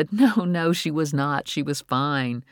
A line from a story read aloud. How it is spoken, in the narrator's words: Nora laughed, shivering, and said